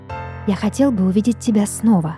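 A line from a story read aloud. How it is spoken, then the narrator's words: Whisper. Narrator (Russian): прошептал он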